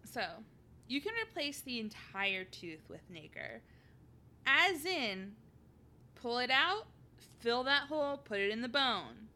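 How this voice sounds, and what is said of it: St. Louis accent. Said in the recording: “my St. Louis accent”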